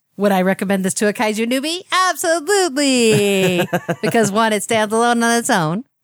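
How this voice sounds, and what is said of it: Imitates another person's voice. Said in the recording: “That was my impression of you”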